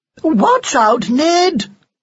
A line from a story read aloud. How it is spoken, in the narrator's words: she cried